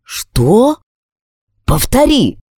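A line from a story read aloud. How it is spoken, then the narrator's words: Shocked tone. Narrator (Russian): Последнюю фразу он произнес таким потрясенным тоном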